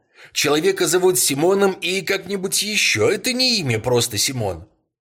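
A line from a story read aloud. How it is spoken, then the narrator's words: Boy shouting. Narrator (Russian): Мальчишка крикнул ему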